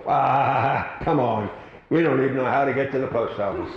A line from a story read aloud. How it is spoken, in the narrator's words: The little boy replied with a chuckle